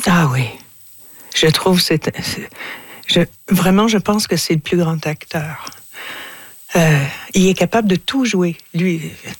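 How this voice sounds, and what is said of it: Strong French-speaking accent. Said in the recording (French): “moi j'ai un gros accent”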